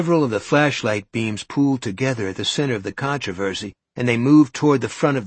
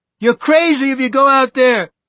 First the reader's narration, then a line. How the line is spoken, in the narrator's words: Buddy Eagleton shouted